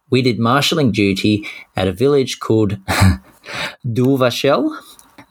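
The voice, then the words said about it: Poor put-on French accent. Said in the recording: “That is my best French accent. Pretty poor, I'm sorry.”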